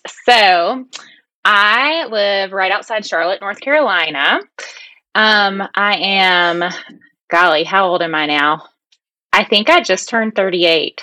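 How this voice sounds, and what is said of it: Southern US country accent. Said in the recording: “cute little accent ... My little country accent.”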